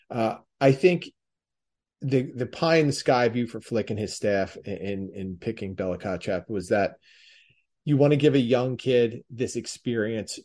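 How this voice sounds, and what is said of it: Delco (Delaware County) accent. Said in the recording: “It's my Delco accent and way of speaking slipping through.”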